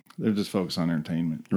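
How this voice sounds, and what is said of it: Kentucky accent. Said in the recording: “There was that Kentucky accent, by the way.”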